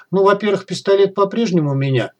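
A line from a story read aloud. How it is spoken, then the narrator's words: Snort. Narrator (Russian): хмыкнул я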